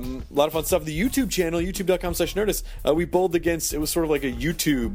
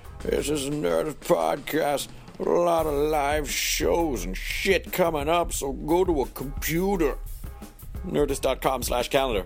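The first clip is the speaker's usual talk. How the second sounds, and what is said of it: Scratchy, crusty put-on character voice. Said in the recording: “My voice is a little scratchy ... I like to do this voice a little bit because it sounds really crusty ... I'm done with this character”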